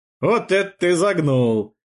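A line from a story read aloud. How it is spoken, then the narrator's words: Laughing. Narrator (Russian): рассмеялся Геракл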